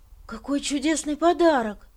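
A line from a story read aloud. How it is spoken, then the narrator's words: Exclaiming. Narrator (Russian): воскликнул он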